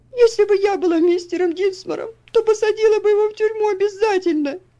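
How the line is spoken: Sobbing. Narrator (Russian): всхлипывала она

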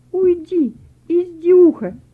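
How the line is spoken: Hurt shout. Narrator (Russian): С обидой крикнула Вера

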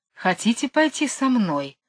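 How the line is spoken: Gentle question, cobra. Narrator (Russian): ласково спросила кобра

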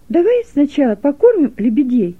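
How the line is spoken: Cheerful suggestion. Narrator (Russian): весело предложила Гелека

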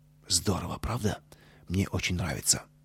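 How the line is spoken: Whisper. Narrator (Russian): Костя шепнул Пете

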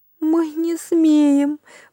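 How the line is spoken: Whimpering chorus. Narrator (Russian): прохныкали десятки голосов

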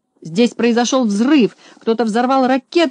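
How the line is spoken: Shouting, voice breaking with excitement. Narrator (Russian): закричал Знайка голосом, прерывающимся от волнения

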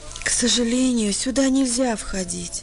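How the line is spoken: Very gentle. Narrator (Russian): очень мягко ответила няня

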